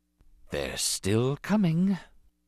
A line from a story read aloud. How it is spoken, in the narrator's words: Rune Hacko whispered